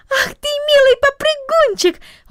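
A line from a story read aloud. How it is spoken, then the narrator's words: Affectionate exclamation. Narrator (Russian): воскликнула она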